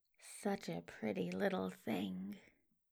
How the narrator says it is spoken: he mutters dazedly

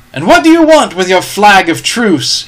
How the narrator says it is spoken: he cried

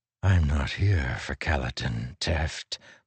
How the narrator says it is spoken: Moash said softly

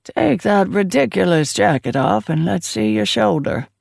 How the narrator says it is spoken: she rasped

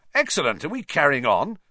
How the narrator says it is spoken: said Fred Weasley, brightly

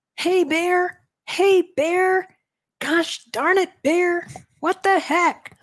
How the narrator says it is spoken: shout

